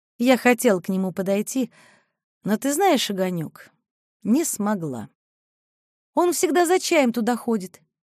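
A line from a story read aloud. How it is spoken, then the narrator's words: Quiet. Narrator (Russian): тихо сказала Мариша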